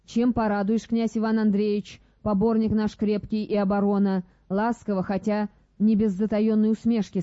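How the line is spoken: Plain. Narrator (Russian): спросила Софья

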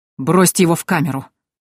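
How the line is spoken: Breathless, through teeth. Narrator (Russian): Тяжело дыша процедил Вильгельм

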